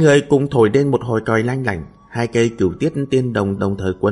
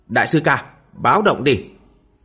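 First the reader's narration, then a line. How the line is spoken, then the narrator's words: Man barking. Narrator (Vietnamese): Một tên đại hán khác quát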